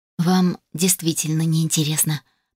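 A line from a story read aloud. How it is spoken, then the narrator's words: Shocked exhale. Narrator (Russian): потрясенно выдохнула я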